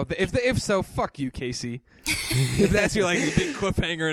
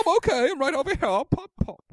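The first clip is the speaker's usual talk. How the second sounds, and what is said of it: Put-on English accent. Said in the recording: “I can't even do a French accent, so I just made her English.”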